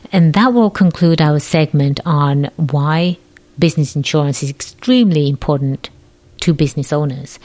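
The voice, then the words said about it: English accent. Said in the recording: “my English accent really isn't a real English accent”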